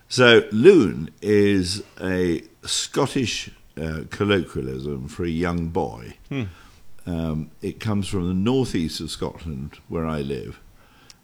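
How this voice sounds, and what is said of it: Posh Received Pronunciation English accent. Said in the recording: “my accent is, as probably every listener will guess, is the what we refer to as the Queen's English or the King's English or even Oxbridge kind of accent”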